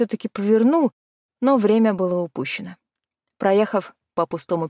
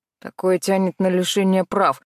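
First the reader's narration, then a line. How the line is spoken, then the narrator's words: Grumbling. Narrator (Russian): ворчал он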